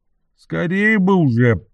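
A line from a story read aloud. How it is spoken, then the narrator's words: Grumbling. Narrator (Russian): проворчал первый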